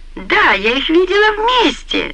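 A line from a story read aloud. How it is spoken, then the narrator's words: Shout. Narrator (Russian): закричала она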